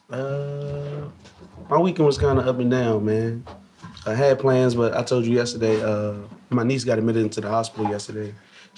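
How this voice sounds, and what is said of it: Hoarse, strained voice. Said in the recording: “please excuse my voice, y'all. I'm dealing with a little bit of issue with my throat right now... Who you been yelling at?... That's what it sounds like.”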